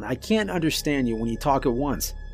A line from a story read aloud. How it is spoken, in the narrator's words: I said as calmly as I could